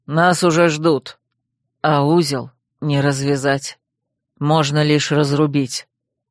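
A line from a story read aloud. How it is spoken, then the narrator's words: Barely audible. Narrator (Russian): добавил едва слышно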